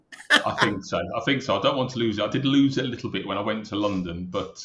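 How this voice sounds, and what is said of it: Birmingham Brummie accent. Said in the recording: “I'm a Brummie, born and bred in Birmingham ... our accents probably give us away”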